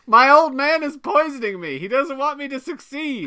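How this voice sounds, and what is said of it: Child character in imitated adult voice. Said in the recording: “my impersonation of Beaver just became Adam Driver and Logan Lucky ... Children with adult voices ... Just a tiny Adam Driver”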